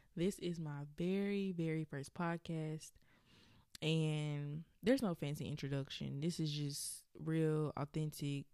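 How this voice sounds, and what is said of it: Southern US accent, Alabama. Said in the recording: “if you hear my accent come out, it is because I am from Birmingham, Alabama. You probably already hear it.”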